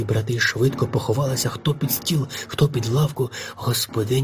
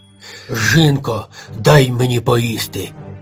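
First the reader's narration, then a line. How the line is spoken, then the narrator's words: Ogre's barking roar. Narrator (Ukrainian): гаркнув людожер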